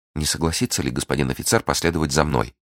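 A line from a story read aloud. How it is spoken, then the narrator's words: Timid question. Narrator (Russian): робко спросила Кэти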